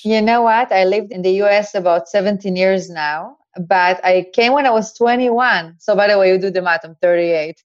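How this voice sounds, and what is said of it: Israeli-accented English. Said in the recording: “Israeli... she's foreign... she must be Israeli. And I love your accent so much.”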